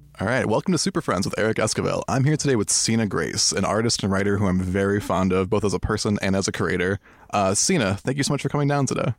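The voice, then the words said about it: Sultry, sexy-sounding voice. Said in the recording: “sexy voice”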